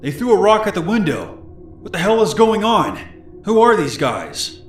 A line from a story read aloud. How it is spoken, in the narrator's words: Aaron shouting